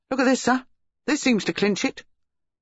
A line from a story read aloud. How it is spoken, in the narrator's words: his subordinate exclaimed